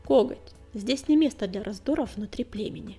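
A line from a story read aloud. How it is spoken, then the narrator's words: Calm reply. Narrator (Russian): спокойно ответила синяя звезда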